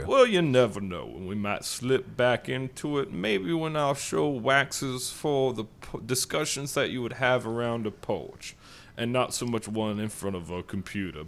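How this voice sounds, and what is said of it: Put-on Southern accent. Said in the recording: “it's Southern, but not undignifiedly so. It's a Southern intellectual, and there's something to be said for that accent ... In the middle of a sentence, you just became normal.”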